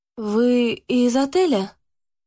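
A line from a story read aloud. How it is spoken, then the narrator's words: Strained, forced out. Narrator (Russian): Наконец смогла выдавить из себя Яна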